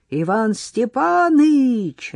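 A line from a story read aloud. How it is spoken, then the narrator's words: Shouting. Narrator (Russian): закричал Егор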